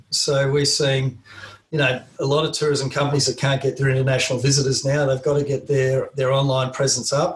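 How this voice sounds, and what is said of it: Australian accent. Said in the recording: “Being an Australian and speaking with my very strange accent”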